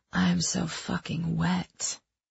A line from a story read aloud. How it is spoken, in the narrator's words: I whispered back